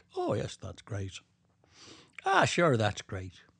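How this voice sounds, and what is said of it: Put-on Irish accent. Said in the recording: “I don't know if she had much of an accent, but I'm putting one on... I can sort of do the Irish one”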